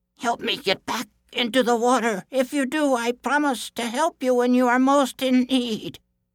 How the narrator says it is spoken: it called out to him

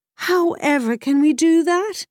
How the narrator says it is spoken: he cried to the mare

